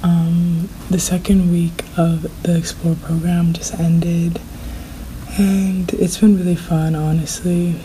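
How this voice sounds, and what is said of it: Fading, strained voice. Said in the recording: “I'm losing my voice. I really cannot whisper right now,”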